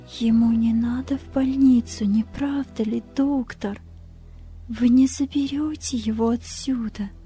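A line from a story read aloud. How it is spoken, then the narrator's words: Whispered. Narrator (Russian): она прошептала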